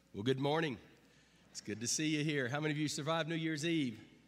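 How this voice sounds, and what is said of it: Hoarse, congested voice from a cold. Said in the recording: “My voice is messed up... I've got a horrible, horrible cold”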